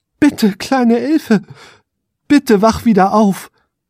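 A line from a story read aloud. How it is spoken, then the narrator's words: Desperate pleading. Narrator (German): flehte er verzweifelt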